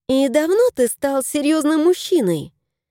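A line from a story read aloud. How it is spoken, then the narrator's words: Cheerful question. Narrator (Russian): весело спросила Арина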